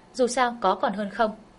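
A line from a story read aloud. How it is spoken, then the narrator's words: Smiling. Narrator (Vietnamese): Lâm Hành Hành mỉm cười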